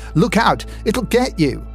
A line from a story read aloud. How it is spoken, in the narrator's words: my partner went crazy, shrieking